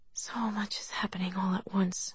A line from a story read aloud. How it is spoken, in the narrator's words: she murmured